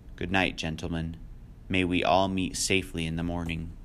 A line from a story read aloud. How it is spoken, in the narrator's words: The judge said gravely